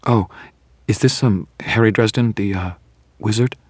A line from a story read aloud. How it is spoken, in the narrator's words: Her tone was apologetic, as though she were terribly afraid she would be insulting me